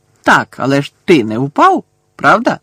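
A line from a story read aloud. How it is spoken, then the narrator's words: Cheerful exclamation. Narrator (Ukrainian): весело вигукнув Амос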